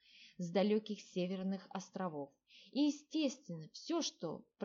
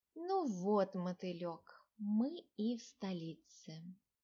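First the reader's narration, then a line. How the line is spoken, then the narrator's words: Young woman addressing pet. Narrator (Russian): обратилась девушка к карайну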